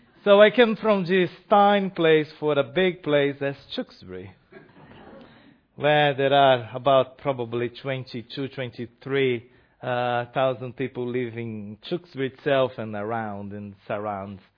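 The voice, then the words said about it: Non-native English accent. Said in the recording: “my accent and my English show that I'm foreigner. I cannot say I'm British because my voice and my ways to speak”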